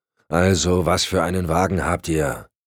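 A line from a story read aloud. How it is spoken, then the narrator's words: Growled reply. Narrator (German): knurrte Cotton zurück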